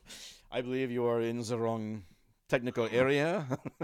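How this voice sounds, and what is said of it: Arsene Wenger impression. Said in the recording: “In that Arsene Wenger voice”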